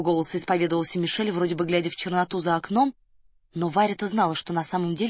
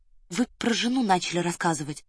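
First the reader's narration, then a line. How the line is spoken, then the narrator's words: Soft, gentle. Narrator (Russian): мягко вернула его Варя к интересному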